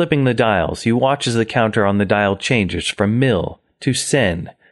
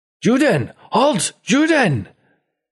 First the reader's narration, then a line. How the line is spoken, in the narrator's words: your own mother chasing after you screaming